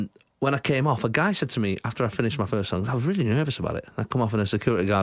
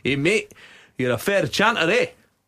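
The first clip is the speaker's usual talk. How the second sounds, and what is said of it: Put-on Glasgow accent. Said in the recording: “Is he Welsh? ... That was clearly a very acceptable Glasgow accent.”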